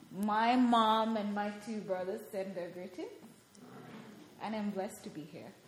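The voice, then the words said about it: Noticeable foreign accent in English. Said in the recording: “Can you guys understand her accent? Yeah, pretty good”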